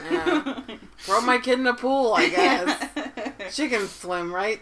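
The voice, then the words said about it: Put-on Boston accent. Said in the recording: “your mom's from Boston ... Everyone gets an accent.”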